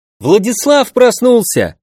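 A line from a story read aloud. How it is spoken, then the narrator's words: Joyful announcement. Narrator (Russian): радостно известил всех Лианг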